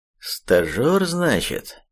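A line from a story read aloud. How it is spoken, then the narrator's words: Drawl. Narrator (Russian): протянул логист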